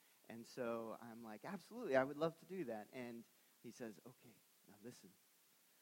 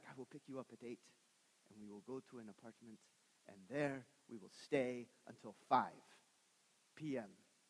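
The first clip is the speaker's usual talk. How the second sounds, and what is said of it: Put-on Chinese accent. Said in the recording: “I don't know why I'm doing this in a Chinese accent, but I apologize.”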